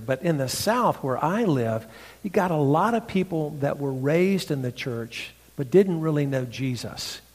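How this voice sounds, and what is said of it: Southern North Carolina accent. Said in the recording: “you recognize my redneck accent. This comes from North Carolina. I say odd words.”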